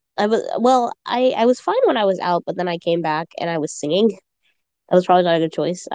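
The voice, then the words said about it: Crunchy, hoarse voice. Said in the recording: “my voice is just kind of crunchy because, ... I was coughing a little bit. ... I was singing and then I started coughing again”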